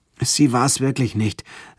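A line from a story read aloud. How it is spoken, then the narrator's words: Weak weary voice. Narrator (German): sagte ich mit matter Stimme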